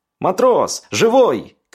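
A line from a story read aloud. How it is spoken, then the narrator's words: Shout. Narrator (Russian): кричал напарник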